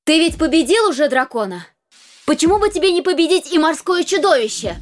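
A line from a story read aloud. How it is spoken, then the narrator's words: Loud question. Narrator (Russian): громко спросила королева у своего мужа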